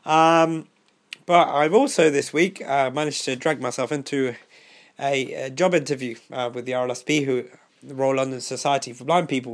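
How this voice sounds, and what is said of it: Voice still sounding ill. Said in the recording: “I've been quite ill over the last 2 weeks. You can probably still hear it in my voice”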